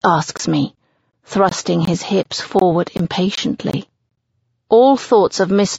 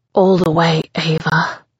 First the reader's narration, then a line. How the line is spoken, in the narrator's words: he pants